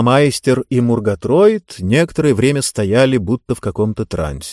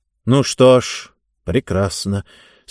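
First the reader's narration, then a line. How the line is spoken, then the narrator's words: Weary, smiling. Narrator (Russian): сказал он и устало улыбнулся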